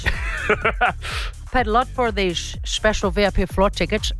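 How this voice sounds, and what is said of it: Put-on Dutch accent. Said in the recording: “Dutch is my favourite accent ... When am I ever going to stop you from doing an accent?”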